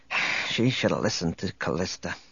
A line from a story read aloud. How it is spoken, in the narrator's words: Speaking more to himself than to Chewbacca, he muttered